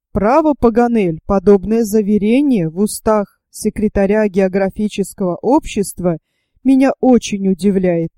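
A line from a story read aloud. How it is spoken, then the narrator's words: Plain. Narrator (Russian): сказал Гленарван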